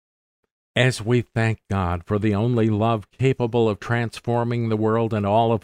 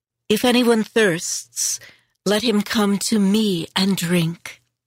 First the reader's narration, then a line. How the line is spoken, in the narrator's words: Jesus cried out